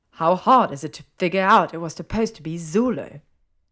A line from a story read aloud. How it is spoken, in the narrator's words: He growled